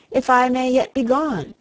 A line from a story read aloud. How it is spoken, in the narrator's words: once again he cried